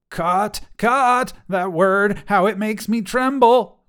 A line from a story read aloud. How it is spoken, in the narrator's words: Laco cried